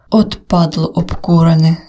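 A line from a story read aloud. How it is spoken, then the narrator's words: Angry hiss. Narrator (Ukrainian): зі злістю прошипів Жека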